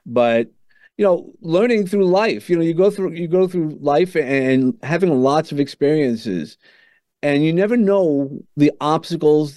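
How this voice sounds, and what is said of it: Brooklyn accent. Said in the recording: “accent is not, I keep saying it's a Southern accent, but it really is a Brooklyn accent, a Southern Brooklyn accent.”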